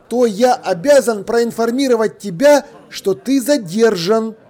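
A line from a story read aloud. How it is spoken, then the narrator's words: Loud, expressive. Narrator (Russian): громко и выразительно произнес он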